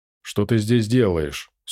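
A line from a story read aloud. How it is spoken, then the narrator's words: Dry question. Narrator (Russian): сухо спросил он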